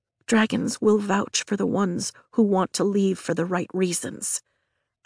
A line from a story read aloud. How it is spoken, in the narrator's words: I whisper